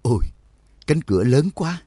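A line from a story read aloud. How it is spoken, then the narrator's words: Sighing exclamation. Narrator (Vietnamese): Đường Mẫn thở dài thốt lên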